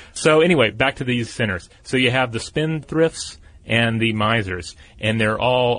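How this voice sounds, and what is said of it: Usual voice. Nothing is said of it.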